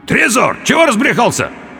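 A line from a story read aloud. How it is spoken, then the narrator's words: Indistinct hoarse croak. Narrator (Russian): Я попытался крикнуть ему, но смог выдавить из себя лишь невнятный хрип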